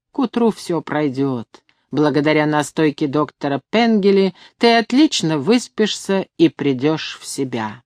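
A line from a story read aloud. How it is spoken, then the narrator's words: Loud, stern governess tone. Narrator (Russian): громко сказала себе строгим гувернантским тоном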